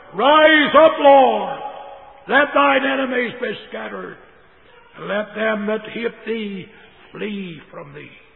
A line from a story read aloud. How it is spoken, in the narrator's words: the disciples shouted